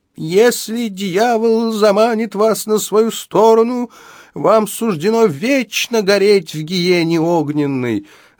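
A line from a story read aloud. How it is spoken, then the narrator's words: Preacher's wailing yell. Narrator (Russian): завопил преподобный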